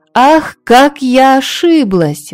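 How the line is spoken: Queen exclaiming. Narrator (Russian): воскликнула королева Хёрдис

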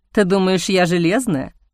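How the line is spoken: Kindly snort. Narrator (Russian): хмыкнула она совсем по-доброму

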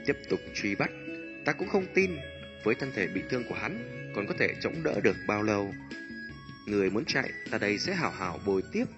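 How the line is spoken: Old man, calm, cold. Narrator (Vietnamese): Một lão tóc bạc tuổi rõ trong ba người là lớn nhất, sắc mặt âm lãnh, khóe miệng hơi run rẩy, hít một hơi điềm nhiên nói

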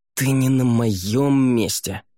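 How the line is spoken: Hissed. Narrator (Russian): прошипел Раэрдан

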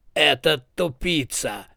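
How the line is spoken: Sinister shadowy voice. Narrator (Russian): нехорошим голосом отозвалась тень

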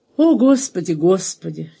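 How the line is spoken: Patient, sorrowful sigh. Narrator (Russian): терпеливо и горестно вздохнула фрау Гуттен

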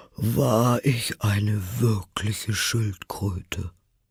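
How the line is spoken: Deep sigh. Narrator (German): sagte die falsche Schildkröte endlich mit einem tiefen Seufzer

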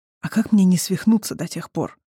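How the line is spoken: Quiet question. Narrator (Russian): тихо спросил Эндан

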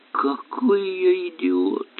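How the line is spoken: Groan. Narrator (Russian): простонал он

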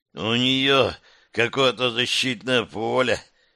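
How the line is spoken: Sudden hoarse rasp. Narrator (Russian): неожиданно прохрипел Тавр

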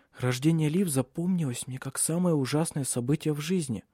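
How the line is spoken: Whisper. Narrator (Russian): шепнула она

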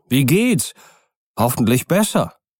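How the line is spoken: Called out. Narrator (German): rief Utterson

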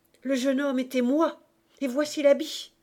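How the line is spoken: Shouted. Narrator (French): cria Marius

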